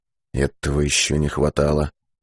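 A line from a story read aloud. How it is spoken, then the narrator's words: Muttered. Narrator (Russian): пробормотал Быков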